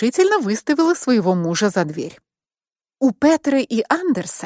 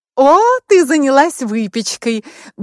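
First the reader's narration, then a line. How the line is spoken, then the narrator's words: Cheerful exclamation. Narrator (Russian): бодро воскликнула Анна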